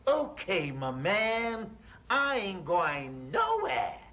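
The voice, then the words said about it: Put-on American accent. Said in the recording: “Your American accent.”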